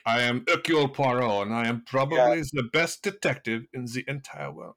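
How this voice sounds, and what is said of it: Mock Poirot accent sounding German. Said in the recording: “he's German in my accent and not French”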